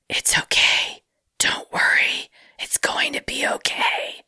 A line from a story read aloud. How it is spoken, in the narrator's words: whispered to me